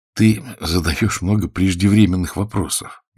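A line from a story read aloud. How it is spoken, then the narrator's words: Gentle reproach. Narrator (Russian): мягко укорил его Загорский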